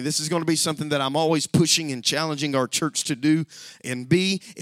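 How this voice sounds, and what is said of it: Strained, damaged voice. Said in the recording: “I can't yell as much today because my voice is all messed up from the change of the weather”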